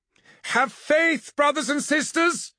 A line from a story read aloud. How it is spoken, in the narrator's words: she called, her voice echoing like thunder